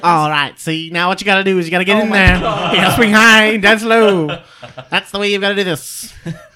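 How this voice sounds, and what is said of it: Bowler Hat Bill character voice. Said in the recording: “character voice ... I'm Bowler Hat Bill”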